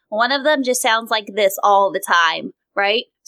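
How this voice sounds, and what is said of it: Nasal character voice. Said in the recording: “one of them speaks really out through their nose”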